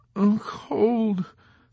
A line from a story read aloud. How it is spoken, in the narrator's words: Snowden moaned with half-closed eyes